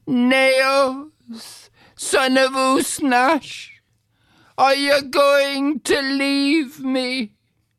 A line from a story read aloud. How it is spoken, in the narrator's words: Deirdre cried out after them